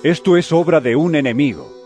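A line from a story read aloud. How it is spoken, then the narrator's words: Plain. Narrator (Spanish): les respondió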